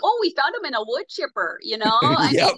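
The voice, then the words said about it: Put-on Minnesota accent. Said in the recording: “the Minnesota, Duluth, Fargo, whatever accent”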